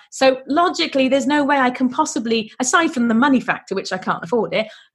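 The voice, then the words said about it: British accent. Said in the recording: “as you will have gathered from the accent, I'm not French. I live in the UK.”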